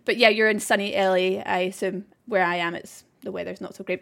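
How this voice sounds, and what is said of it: Strong regional accent. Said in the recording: “hopefully my accent won't be too strong for you if you find me speaking too fast at all”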